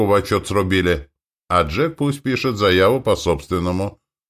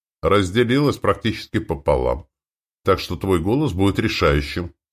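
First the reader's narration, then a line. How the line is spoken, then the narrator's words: Plain, boss. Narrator (Russian): сказал мне начальник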